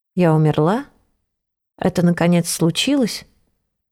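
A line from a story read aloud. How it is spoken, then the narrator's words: Whisper. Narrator (Russian): прошептала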